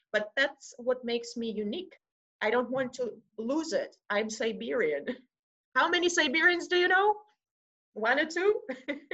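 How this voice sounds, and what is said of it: Russian-accented English. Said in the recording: “I have an accent ... I'm from Russia, I might have an accent”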